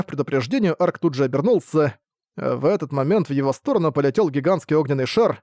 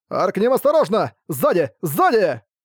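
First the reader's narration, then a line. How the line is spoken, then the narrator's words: Shout. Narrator (Russian): закреплённый на его затылке глаз буксила прокричал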